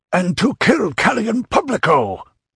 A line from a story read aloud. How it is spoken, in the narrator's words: exclaimed Dionys